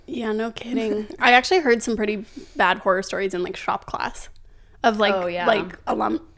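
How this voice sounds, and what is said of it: Hoarse, partly lost voice. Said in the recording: “I'm still losing my voice a little bit”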